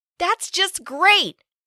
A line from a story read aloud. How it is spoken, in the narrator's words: I complained loudly